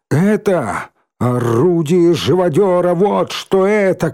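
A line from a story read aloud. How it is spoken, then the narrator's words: Shout. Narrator (Russian): крикнул Рыжий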